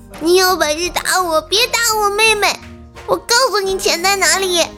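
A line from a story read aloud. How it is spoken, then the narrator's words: Crying. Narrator (Chinese): 我哥啊哭着说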